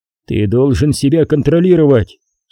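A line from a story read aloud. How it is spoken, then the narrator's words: Stern. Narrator (Russian): строго говорил Куай-Гон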